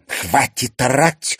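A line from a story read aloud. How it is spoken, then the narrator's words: Loud hiss. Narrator (Russian): громко прошипела Ксения, наконец приходя в себя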